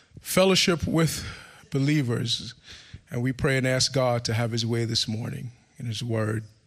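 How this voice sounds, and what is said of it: Rough, worn-out sick-sounding voice. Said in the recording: “my voice might be a little bit annoying. I've been under the weather all week ... So my voice is a little bit shot ... if I clear my throat a lot”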